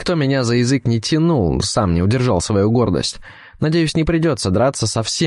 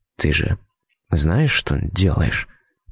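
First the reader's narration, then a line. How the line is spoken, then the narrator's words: Whisper. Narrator (Russian): прошептал я девушке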